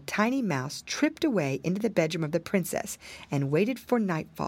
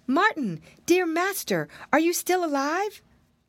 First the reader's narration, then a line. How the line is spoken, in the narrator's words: called out to him